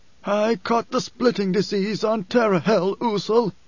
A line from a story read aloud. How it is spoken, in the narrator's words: wheezed